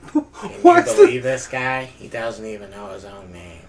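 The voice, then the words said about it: SpongeBob impression. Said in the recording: “that is my SpongeBob impressions ... SpongeBob impersonator.”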